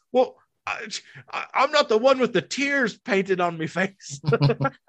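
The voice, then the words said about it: Deliberately bad put-on Irish accent. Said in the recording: “My worst Irish accent ever.”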